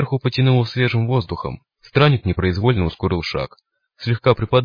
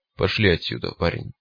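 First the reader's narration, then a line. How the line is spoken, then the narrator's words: Gruff mutter. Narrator (Russian): буркнул странник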